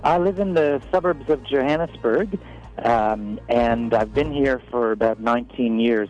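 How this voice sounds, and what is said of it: American accent. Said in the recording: “As you can probably hear from my accent, I've moved from America.”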